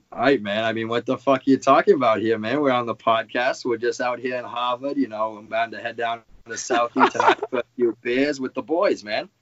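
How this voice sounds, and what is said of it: Put-on Massachusetts accent. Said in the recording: “I can put on a little Massachusetts accent if you want me to ... Let me hear the best Massachusetts accent you got going.”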